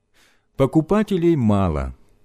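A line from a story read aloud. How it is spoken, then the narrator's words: Sad. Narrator (Russian): сказал он грустно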